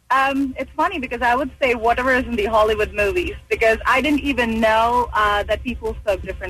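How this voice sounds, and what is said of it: Indian accent with British touches. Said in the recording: “I started to pick up on a little bit of an Indian accent, but the more you spoke, I heard something different at the end, like almost British ... I am Indian ... it will be a mix of British ... I'm influenced by American accent ... all over the map”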